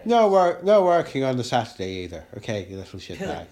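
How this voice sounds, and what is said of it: Put-on Irish accent. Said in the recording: “we can do an Irish accent, see, yeah, that's quite accent. Good.”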